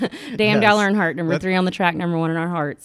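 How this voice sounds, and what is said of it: Put-on strong Southern American accent. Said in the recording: “I got the accent, but I can put it on if I need to ... very strong Southern accent”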